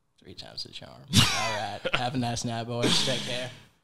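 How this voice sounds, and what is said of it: Bad Matthew McConaughey impression. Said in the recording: “a really bad Matthew McConaughey impersonator.”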